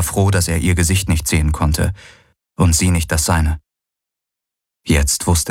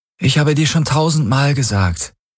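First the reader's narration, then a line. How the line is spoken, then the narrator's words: Tired reply. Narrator (German): gab müde zurück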